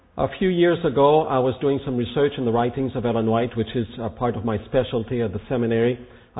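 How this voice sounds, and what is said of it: Weak voice from a cold. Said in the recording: “my voice is a little weak tonight. I've had a cold for the last week or so”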